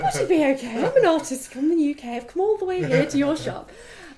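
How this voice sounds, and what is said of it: Put-on posh British accent. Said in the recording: “in my best British accent ... It's Mary Poppins.”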